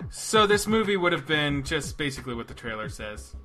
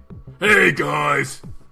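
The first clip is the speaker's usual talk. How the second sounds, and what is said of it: Gruff, very deep character voice. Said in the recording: “when I do my gruff guy, it's just me... Very deep voice... the gruff guy”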